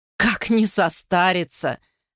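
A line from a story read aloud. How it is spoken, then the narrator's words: Laughing. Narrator (Russian): рассмеялась госпожа Тапоро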